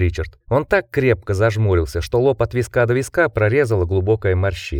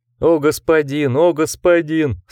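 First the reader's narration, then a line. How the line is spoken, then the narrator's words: Moaning. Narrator (Russian): стонал Андерс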